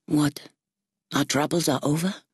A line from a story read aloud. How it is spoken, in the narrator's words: Riven sighed